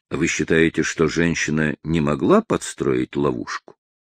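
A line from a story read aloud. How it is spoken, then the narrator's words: Neutral question. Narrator (Russian): нейтральным тоном спросил Дун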